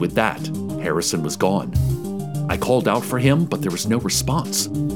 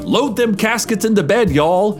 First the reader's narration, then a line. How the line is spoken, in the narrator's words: he shouted